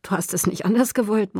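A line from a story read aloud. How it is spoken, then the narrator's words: Murmur. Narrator (German): murmelte er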